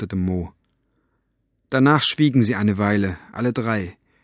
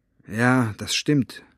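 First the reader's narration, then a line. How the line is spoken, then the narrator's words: Sighing. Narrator (German): sagte Mo und seufzte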